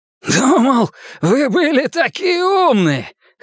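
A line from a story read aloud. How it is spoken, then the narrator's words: Hoarse shout. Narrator (Russian): хрипло крикнул он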